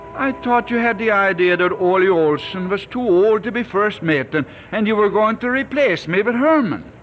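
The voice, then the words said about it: Swedish accent. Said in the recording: “Herman can't even talk with a Swedish accent.”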